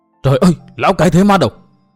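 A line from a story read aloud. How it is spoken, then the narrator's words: Startled crowd crying out. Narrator (Vietnamese): những người hiện diện nơi đây nhất loạt kêu lên bằng một giọng thẳng thốt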